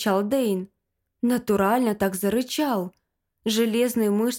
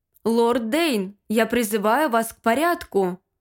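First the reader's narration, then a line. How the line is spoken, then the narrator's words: Judge's loud statement. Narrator (Russian): громко сказал судья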